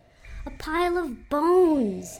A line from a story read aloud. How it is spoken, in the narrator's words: she exclaims